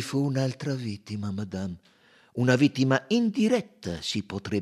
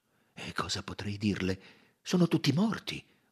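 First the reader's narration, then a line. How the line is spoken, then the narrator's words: Murmured. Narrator (Italian): mormorò lei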